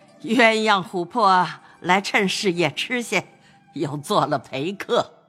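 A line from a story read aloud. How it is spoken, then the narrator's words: Laughing old woman. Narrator (Chinese): 贾母笑道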